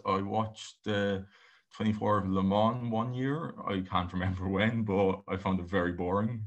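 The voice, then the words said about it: Irish-accented English. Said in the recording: “your accent doesn't give away that you're from Ireland at all, obviously”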